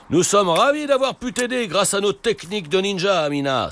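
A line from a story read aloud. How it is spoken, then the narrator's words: Exclaiming. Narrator (French): s'écrie Papa Ninja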